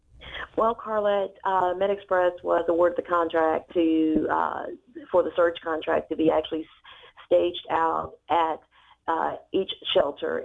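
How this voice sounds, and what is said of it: Strained, worn-out voice. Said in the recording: “Forgive my voice this morning. I'm trying to make it come away, but it's kind of hard.”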